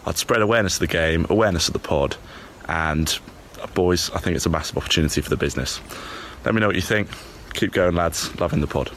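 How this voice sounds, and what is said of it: Charming, relaxing accent. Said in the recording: “the way he spoke, he's a charmer ... The accent was great ... I was so relaxed”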